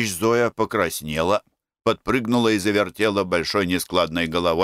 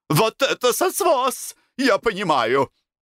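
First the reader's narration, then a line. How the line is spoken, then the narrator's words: Burst out laughing. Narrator (Russian): Я расхохотался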